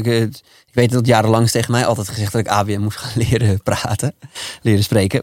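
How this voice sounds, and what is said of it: Amsterdam Dutch accent. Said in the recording (Dutch): “Ik spreek Amsterdams”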